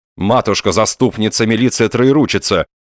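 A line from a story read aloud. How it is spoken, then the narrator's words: Breathless exclamation. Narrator (Russian): воскликнул Остап, переводя дыхание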